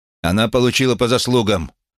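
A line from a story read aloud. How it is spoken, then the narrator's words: Shouted out. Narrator (Russian): выкрикнул он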